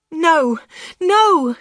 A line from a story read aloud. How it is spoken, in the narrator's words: cried